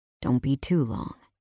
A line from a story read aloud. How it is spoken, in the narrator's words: he said softly